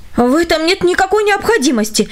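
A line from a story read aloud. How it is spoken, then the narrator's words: Stunned wife exclaiming. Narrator (Russian): воскликнула его пораженная жена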